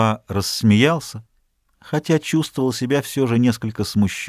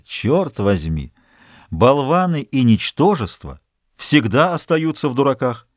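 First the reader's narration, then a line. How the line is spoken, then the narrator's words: Laughing. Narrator (Russian): Он продолжал смеяться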